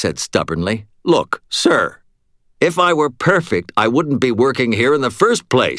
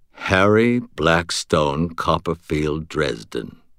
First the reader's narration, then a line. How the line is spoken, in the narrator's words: he said quietly